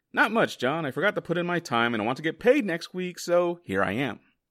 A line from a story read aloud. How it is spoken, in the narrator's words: Alan answered